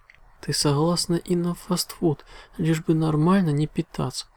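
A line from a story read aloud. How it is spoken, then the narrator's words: Sighing. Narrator (Russian): вздохнула Луна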